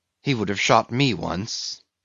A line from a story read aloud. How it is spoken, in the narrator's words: he murmured